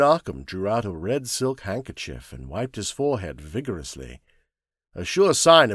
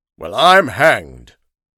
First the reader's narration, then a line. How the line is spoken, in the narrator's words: Headland exclaimed loudly